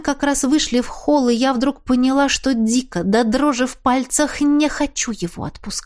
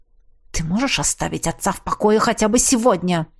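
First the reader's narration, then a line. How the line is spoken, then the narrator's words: Hiss. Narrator (Russian): прошипела Ингрид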